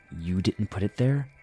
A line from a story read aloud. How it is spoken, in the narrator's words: I asked quietly